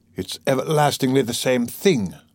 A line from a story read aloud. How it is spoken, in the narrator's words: said Raskolnikov irritably